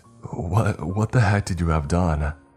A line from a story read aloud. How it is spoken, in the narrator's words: I stammered out, too in shock to think of anything else to say